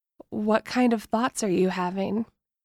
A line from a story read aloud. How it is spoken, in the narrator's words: whisper as I feel my nipples pebble and wetness gush between my thighs